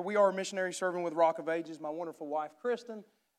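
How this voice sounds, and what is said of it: Strong rural redneck accent. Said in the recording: “my accent is not yours. So if you need to, we can get you a redneck dictionary”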